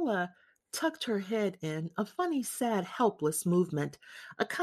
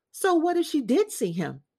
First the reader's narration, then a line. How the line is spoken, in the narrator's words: Piccola shouted